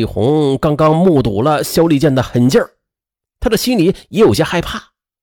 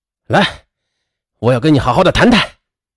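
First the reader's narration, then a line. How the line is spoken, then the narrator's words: Angry. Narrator (Chinese): 肖立健满脸怒气的对张丽红说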